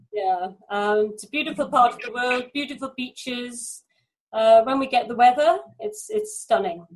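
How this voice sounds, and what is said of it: Welsh accent. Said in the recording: “because of your accent ... I'm from South Wales in the UK”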